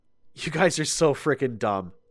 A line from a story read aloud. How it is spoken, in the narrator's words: I sighed